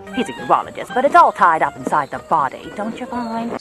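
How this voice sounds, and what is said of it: Katharine Hepburn impression, her timbre and intonation. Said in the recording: “Cate Blanchett, The Aviator. ... So this is a great evocation of Katharine Hepburn's particular idiolect. If I had to quibble with it, I'd say that Blanchett relies really strongly on Hepburn's timbre and intonation.”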